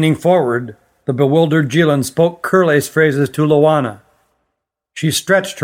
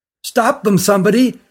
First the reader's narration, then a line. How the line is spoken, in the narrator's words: cried the one who found them